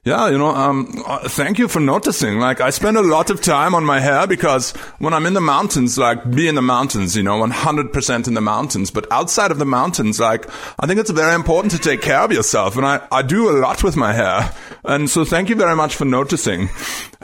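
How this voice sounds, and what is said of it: Imitation of Reinhold Messner's accent. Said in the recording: “I don't want to do his accent. I'm going to do his accent injustice.”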